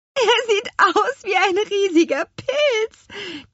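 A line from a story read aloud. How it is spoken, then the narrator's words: Delighted squeal. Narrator (German): quietschte Lea vergnügt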